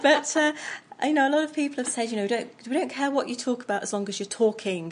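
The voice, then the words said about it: Charming English accent. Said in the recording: “I love your accent ... It is very charming”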